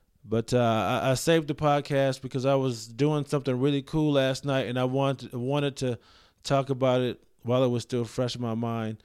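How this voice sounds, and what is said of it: Tired, weary-sounding voice. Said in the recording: “my voice sounds weird because I'm really tired”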